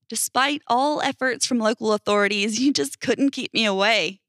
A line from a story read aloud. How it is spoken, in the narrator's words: I laughed